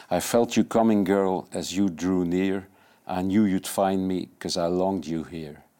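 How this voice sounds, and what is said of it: English with a Dutch accent. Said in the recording (Dutch): “mijn vriendin vindt dat ik Engels eh, spreek met een Hollands accent”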